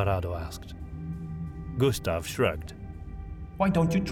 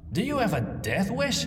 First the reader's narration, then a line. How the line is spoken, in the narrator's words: Tomgard blurted out